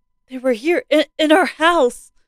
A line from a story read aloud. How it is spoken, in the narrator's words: Mary exclaimed